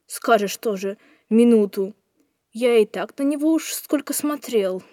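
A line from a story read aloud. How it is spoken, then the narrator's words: Doubtful grumbling. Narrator (Russian): недоверчиво поворчал Леха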